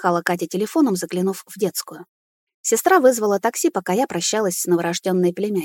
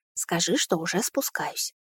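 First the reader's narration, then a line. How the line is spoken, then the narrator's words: Careful whisper. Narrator (Russian): прошептала я, боясь разбудить кроху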